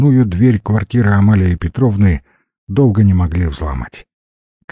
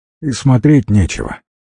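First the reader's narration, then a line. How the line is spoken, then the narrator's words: Sighing paramedic. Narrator (Russian): вздохнул врач скорой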